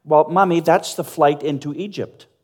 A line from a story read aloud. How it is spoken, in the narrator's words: she said